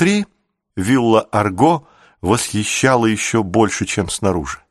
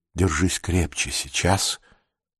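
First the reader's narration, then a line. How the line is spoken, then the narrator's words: Husband's whisper. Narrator (Russian): Муж шепнул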